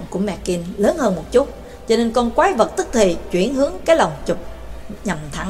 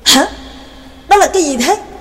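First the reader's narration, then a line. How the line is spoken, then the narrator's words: Startled cry. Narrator (Vietnamese): Hoàn toàn không có chuẩn bị tâm lý nên bạn lập tức kêu lên thành tiếng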